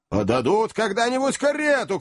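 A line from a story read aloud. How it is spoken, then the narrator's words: Shouting. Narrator (Russian): кричал Ордль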